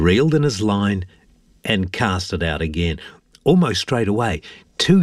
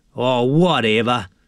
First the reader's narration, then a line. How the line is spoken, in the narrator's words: sneered Jack